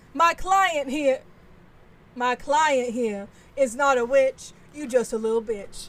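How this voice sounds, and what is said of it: Put-on Southern accent. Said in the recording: “I would talk in a southern accent like this.”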